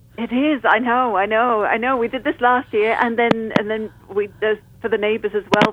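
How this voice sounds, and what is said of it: Speaker with a noticeable accent. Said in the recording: “I love your accent”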